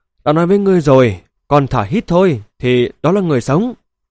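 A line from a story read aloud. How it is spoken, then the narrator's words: Breathless complaining. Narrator (Vietnamese): thở hổn hển than phiền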